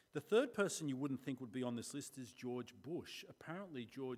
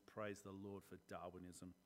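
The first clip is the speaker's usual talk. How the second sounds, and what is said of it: Sarcastic delivery. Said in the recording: “That was sarcasm,”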